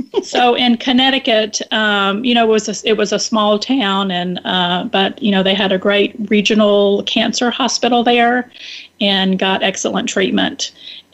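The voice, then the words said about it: Southern American accent. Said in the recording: “You still have the Southern accent. That one stayed with you. ... it shows itself sometimes more than others, but it's really cute.”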